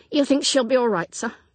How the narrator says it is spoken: Tim demanded anxiously

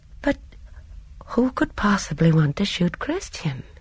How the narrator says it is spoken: Sericold said in a wondering voice

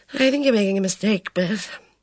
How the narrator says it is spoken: he sighed

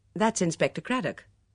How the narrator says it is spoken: Hearing a man's voice in the hall, she said quickly

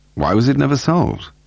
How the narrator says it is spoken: Paul asked him

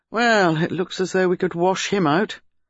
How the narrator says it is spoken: He said, in a rather dissatisfied tone

